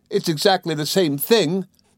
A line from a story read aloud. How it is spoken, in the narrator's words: cried Dora, and she evidently thought so, for she wept most grievously